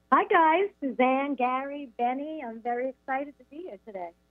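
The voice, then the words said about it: New York accent. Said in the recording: “I'm not going to be able to hide that New York accent.”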